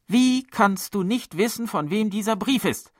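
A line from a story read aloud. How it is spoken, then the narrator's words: Angry roar. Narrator (German): brüllte die Heimleiterin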